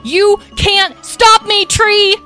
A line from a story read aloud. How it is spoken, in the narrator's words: She yelled